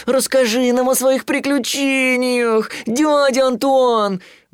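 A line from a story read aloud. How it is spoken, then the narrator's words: Pleading. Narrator (Russian): взмолился Тулуз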